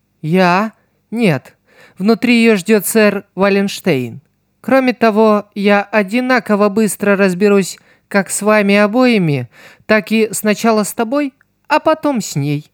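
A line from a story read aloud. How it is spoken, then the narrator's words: Melodious female voice. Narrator (Russian): мелодичным голосом ответила женщина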